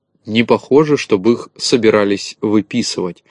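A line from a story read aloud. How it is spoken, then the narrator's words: Plain. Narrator (Russian): ответил Незнайка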